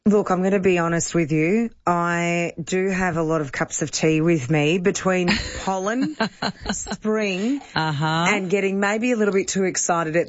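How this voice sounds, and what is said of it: Slightly raspy voice. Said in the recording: “I'm left a little bit raspy”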